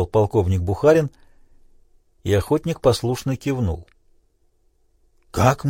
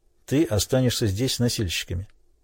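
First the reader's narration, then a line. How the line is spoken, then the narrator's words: Quiet. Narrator (Russian): тихо произнес русский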